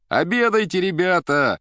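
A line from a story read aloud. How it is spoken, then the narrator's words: Shouting together. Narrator (Russian): кричали повара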